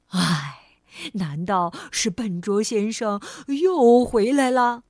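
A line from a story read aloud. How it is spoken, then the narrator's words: Sighing. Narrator (Chinese): 他叹了口气说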